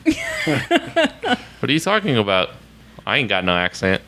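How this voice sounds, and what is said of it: Exaggerated Oklahoma accent. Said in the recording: “Hearing your Oklahoma accents brightens up my commutes.”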